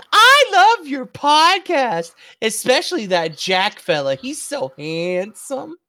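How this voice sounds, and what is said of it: Condescending mocking voice. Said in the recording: “Will you do so condescendingly?”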